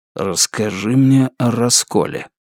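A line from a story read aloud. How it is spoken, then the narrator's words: Whisper. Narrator (Russian): она прошептала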